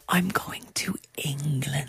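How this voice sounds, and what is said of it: Spoken very quietly. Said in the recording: “say this really quietly.”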